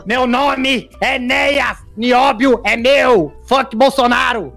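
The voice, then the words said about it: Imitates another person's voice. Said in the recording (Portuguese): “alguém imitando ele”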